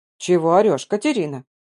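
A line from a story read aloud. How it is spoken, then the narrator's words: Displeased grumbling old woman. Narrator (Russian): Как всегда недовольно ворчала моя любимая старушка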